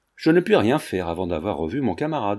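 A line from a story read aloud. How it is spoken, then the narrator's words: Plain. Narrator (French): répondit enfin Paul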